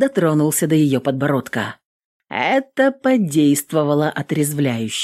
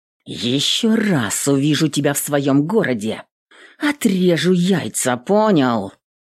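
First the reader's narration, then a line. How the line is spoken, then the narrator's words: Female warrior, through gritted teeth. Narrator (Russian): Сквозь зубы проговорила воительница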